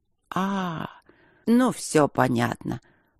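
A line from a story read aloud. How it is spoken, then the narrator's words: Drawled. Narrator (Russian): протянула она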